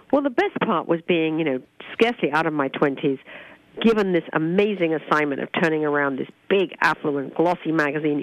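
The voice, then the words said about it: British accent. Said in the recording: “a proper British woman ... your accent is awesome”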